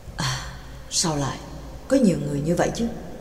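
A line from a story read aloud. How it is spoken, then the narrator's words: Soft. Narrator (Vietnamese): Pháp sư chỉ khẽ nói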